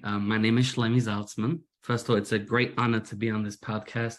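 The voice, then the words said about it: British Manchester accent, slightly American. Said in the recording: “as you can hear from my accent, British. I'm originally from Manchester. My accent's become a little American recently.”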